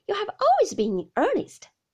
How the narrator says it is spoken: said Agnes, laughing again

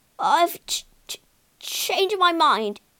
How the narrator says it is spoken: he stammered

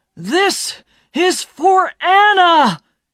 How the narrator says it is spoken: he shouted

